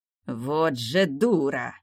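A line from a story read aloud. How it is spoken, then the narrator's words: Angry, through gritted teeth. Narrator (Russian): зло процедил староста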